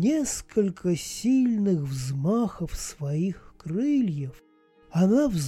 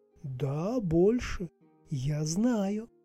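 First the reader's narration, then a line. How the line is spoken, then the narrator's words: Quiet reply. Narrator (Russian): тихо ответила хранительница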